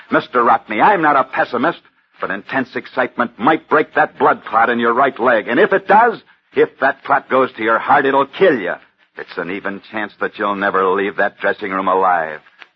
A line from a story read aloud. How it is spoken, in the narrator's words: Angrily, the doctor said